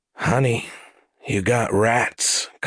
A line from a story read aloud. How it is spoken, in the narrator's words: Collie said under her breath